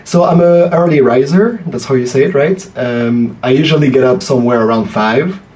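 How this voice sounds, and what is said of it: French accent in English. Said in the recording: “Oh, I'm French. ... I guess your listeners can probably guess from my accent.”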